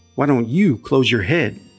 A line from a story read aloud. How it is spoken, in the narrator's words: snapped Nevaeh